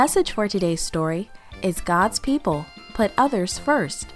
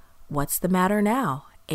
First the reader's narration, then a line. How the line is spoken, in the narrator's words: Abram asked